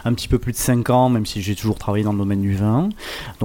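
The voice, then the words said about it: Slight southern French accent. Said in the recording (French): “je viens du Languedoc, ça s'entend un petit peu à mon accent.”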